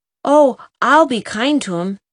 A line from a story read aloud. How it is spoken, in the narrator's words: said Jem eagerly